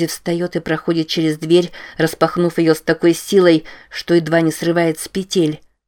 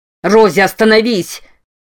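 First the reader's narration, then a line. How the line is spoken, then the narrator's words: Yelling. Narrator (Russian): вопит Керт Гамильтон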